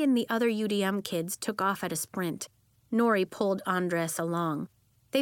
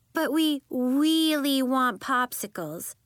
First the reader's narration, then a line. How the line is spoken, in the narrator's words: Lacey said in a baby voice